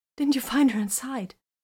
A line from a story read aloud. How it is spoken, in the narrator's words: the woman gasped